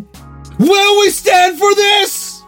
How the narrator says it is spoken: I shouted at my fellow student comrades of the fucking proletariat

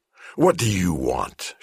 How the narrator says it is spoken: snarled

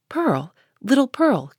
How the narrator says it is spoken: cried he, after a moment's pause, then suppressing his voice

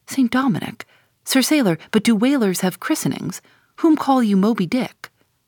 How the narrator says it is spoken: cried Don Sebastian

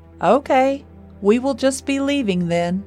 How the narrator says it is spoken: Roger said in a loud voice

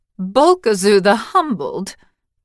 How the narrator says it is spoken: Her laughter cut sharply

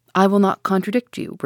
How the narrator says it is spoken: replied Ned Land

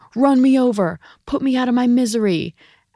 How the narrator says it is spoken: his dad yelling

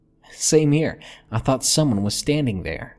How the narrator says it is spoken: she laughed

